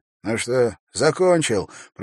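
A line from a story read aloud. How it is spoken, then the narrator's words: Wheezy rasp. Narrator (Russian): просипел он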